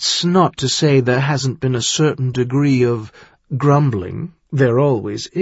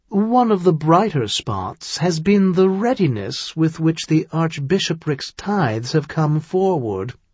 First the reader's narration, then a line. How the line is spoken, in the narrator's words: he said much more cheerfully